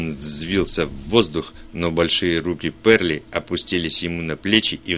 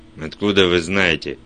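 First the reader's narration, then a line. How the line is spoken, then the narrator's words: Barked. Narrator (Russian): рявкнул Вульф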